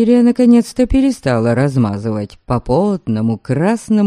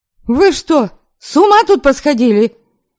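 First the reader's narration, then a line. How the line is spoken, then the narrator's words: Exasperated sharp shout. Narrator (Russian): Не выдержав, прикрикнула я на парочку этих ненормальных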